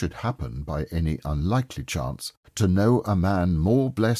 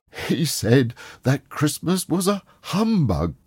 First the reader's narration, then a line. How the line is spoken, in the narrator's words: cried Scrooge's nephew